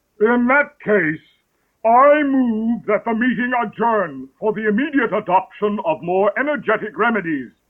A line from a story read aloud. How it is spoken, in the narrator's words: The Dodo solemnly rose to its feet and said